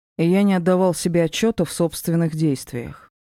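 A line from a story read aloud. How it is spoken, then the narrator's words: Even-toned reply. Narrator (Russian): ровным тоном ответил Ди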